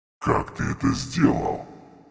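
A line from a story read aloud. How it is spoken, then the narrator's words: Otherworldly voice. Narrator (Russian): Потусторонним голосом спросил он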